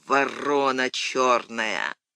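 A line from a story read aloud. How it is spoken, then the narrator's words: Drowsy mutter through teeth. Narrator (Russian): бормотал Данилыч сквозь зубы, задремывая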